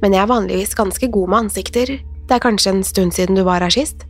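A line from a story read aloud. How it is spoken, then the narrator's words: Grinning. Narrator (Norwegian): Den fremmede flirte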